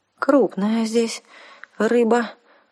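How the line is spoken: Shaky-voiced remark. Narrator (Russian): дрогнувшим голосом заметила Арсана

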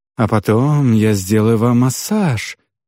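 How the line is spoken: Languid female voice. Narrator (Russian): томным голосом произнесла гоблинша в синем

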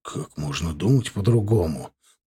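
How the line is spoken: Grumbling. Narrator (Russian): проворчал Иван Викторович

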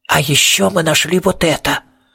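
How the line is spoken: Hissed. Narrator (Russian): Престон, который прошипел

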